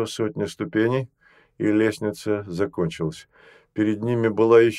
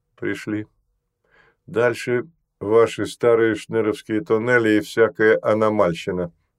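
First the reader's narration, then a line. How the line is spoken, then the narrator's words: Gloomy. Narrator (Russian): мрачно произнес он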